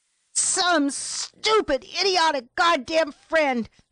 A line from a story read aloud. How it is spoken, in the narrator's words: shouted out